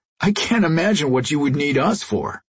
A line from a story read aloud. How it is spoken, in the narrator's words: Jason laughed